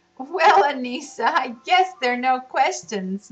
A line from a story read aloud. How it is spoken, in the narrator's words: laughed Mother